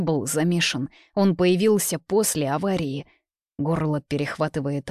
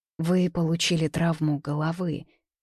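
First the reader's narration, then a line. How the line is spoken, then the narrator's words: Soft, sympathetic voice. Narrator (Russian): говорит мягко, в ее голосе так и сквозит сочувствие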